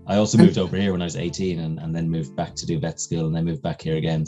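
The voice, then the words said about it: Soft neutral Irish accent. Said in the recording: “a bit of a neutral Irish accent. Kind of soft, I suppose ... It's a young Terry Wogan ... It's a comforting voice.”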